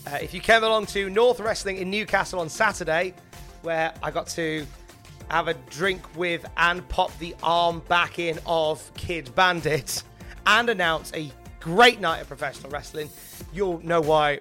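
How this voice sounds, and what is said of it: Hoarse, blown-out voice. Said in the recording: “I sound like this... I've just blown my voice out... my voice sounds like this... I've just lost my voice.”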